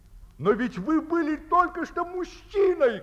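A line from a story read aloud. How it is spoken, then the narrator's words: Colonel shouting. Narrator (Russian): кричал полковник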